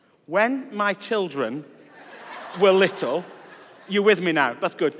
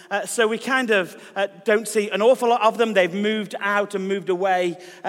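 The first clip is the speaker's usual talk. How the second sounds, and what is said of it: Speaking very fast. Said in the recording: “I need to slow down, don't I? ... I've gone off on an express train and my accent, sometimes I'll slow down.”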